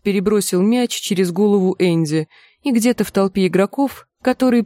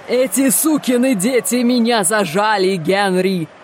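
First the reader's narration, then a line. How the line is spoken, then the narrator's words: Yelling, barely audible. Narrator (Russian): заорал он, едва слышным сквозь пение голосом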